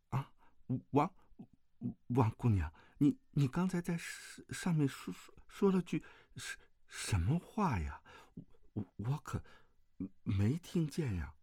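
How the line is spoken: Stammering question. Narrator (Chinese): 段誉结结巴巴地问道

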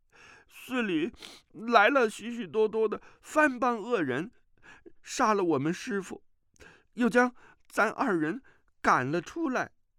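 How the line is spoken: Young monk crying. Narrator (Chinese): 那个额头上没伤的小沙弥哭着说

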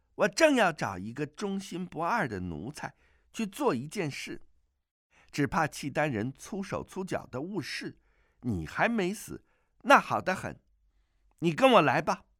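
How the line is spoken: Delighted girlish giggling. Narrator (Chinese): 阿紫更是欢喜，咯咯娇笑两声，说

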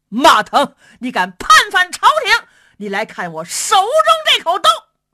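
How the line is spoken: Loud shouting. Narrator (Chinese): 一员大将高声喊嚷

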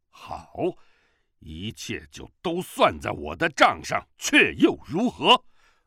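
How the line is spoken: Angry. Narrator (Chinese): 乔峰怒道

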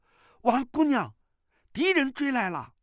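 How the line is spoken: Startled shout. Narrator (Chinese): 段誉吃了一惊，叫道

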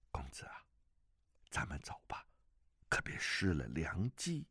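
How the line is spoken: Whisper in the ear. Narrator (Chinese): 朱丹臣在他耳畔悄声地说

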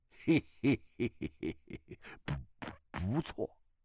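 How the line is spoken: Cold laugh. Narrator (Chinese): 钟万愁冷笑起来

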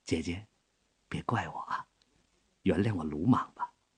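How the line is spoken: Low and soft. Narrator (Chinese): 卢秋影说话的声音很低很柔

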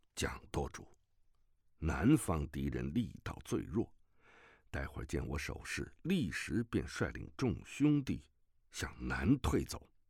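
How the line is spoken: Low voice. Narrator (Chinese): 乔峰低声道

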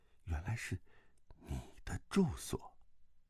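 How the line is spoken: Sad low voice. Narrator (Chinese): 段正淳 胸口一酸，低声道

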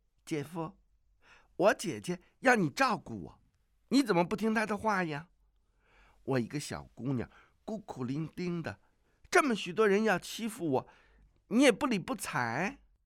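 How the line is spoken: Coquettish laughing. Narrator (Chinese): 阿紫正自娇笑，他道

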